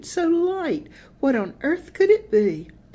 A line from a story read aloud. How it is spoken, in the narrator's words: she cooed